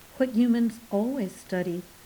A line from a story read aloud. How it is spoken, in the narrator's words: said Hesper